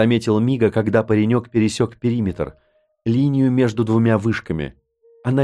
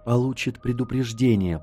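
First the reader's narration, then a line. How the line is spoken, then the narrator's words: Uncertain self-convincing whisper. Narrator (Russian): прошептал я, словно пытался сам себя убедить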